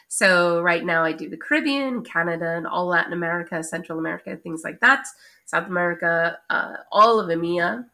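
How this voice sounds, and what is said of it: Very thick American accent. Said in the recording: “I still have a super thick American accent ... your accent remains confidently strong ... Very thick accent”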